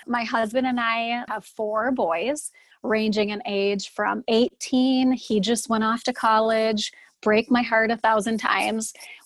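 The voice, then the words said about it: North Dakota accent. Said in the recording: “I'm from Fargo, North Dakota. Everyone can hear it in my accent”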